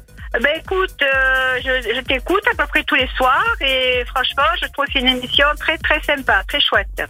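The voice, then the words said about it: Marseille regional French accent. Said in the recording (French): “ça fait du bien cet accent”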